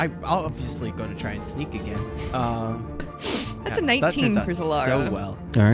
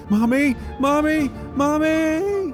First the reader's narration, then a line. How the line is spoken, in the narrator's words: Starts screaming